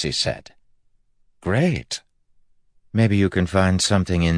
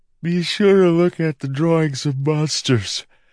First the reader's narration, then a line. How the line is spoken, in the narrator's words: Maracy said, yawning